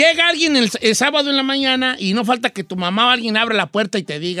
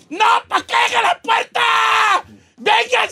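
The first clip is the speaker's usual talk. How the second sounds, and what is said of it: Shouting wildly. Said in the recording (Spanish): “estás gritando como loca”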